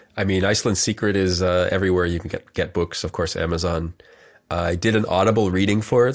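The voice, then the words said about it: Slightly congested, stuffy voice. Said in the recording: “I have a little bit of a cold.”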